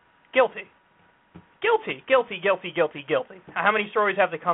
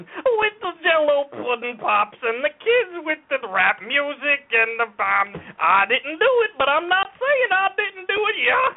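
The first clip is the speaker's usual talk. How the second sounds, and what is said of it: Bill Cosby impression. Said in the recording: “You like my Bill Cosby impression?”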